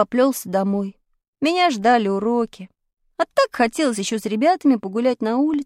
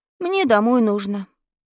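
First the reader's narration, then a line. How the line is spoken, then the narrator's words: Sad. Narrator (Russian): грустно сказал я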